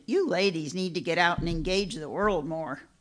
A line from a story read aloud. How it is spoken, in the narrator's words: she grunted